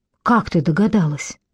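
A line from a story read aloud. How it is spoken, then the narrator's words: Sighing. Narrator (Russian): Шей вздохнула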